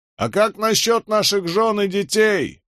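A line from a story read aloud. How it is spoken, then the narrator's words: Soldier's shout. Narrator (Russian): выкрикнул один из солдат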